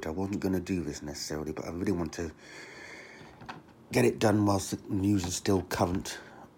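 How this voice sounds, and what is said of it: Slightly hoarse, scratchy voice. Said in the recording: “Although I have got a bit of a sore throat.”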